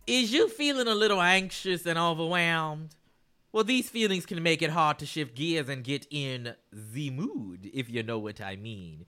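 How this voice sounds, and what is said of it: Assertive sexy voice with twang. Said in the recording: “That was my sexy voice. Okay, it's a little assertive, you know? It's got a little twang to it”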